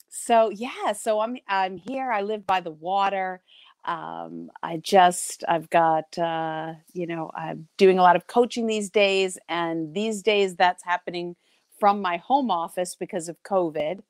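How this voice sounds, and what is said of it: New York accent. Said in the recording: “I am from New York ... I'm sure you'll hear my accent, but I'm hoping it's not too harsh”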